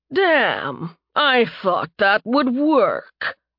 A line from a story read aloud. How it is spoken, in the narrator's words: the messenger grunted, his voice normal